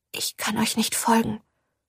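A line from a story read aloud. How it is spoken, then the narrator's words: Whispered. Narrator (German): flüsterte Ophelia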